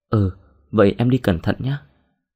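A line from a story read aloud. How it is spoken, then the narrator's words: Smiling. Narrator (Vietnamese): Đồng mỉm cười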